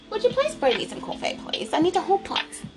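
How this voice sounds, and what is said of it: Put-on British accent. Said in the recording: “Say it with a British accent.”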